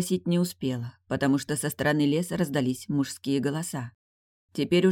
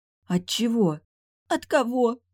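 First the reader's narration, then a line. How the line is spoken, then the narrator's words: Sobbing. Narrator (Russian): всхлипнула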